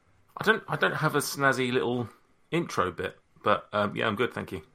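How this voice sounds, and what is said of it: British accent. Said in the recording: “your your accent, your your demeanor – that is snazzy enough ... it's just how he says it in that accent ... Thank you in that accent. It's so nice.”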